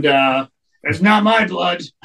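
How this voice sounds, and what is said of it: Gruff wrestler impression voice. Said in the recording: “In my best Road Warriors voice.”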